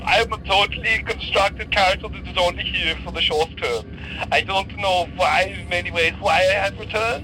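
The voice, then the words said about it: Put-on accent sounding a bit Welsh. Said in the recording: “I'm not even confident my accent will remain... Well, it's kind of a bit Welsh... I had my arm on the Welsh button”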